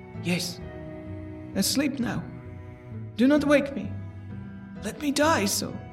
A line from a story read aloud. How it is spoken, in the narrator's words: The lips moved sluggishly, and from between them, in a barely audible whisper, issued the words